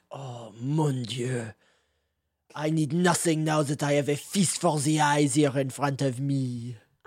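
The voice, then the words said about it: Put-on French accent. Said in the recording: “Where's that accent from? ... It's a country called France.”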